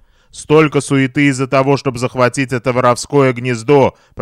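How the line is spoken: Grumbling. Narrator (Russian): проворчал Рамирес

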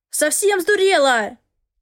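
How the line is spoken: Angry bark. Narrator (Russian): рявкнул он

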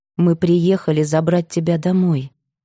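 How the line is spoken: Gentle. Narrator (Russian): мягко сказала Марина

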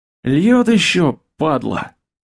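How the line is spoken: Grumbling goblin. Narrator (Russian): пробурчал гоблин

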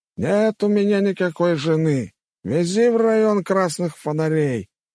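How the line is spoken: Loud yelling. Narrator (Russian): на всю улицу заорал Лысик

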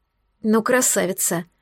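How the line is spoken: Muttering. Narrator (Russian): пробормотала я

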